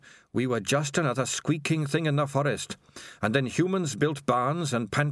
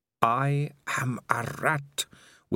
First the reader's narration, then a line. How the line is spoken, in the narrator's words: whispered Dangerous Beans